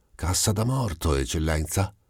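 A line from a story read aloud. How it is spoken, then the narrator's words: Whisper with faint smile. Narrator (Italian): Nocio Pampina, detto Sacramento, aprì le labbra squallide a un'ombra di sorriso e bisbigliò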